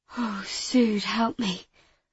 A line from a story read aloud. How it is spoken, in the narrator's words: I whispered